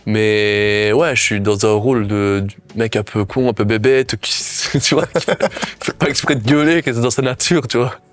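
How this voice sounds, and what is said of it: Belgian French accent. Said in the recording (French): “J'ai déjà mon accent, mais parfois j'exagère un peu ... C'est de la Belgitude.”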